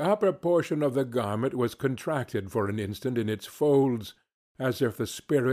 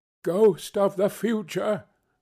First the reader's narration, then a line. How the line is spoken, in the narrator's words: he exclaimed